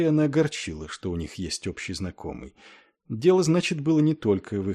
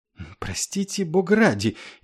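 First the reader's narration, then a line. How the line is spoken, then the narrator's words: Frightened. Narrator (Russian): испуганно сказал капеллан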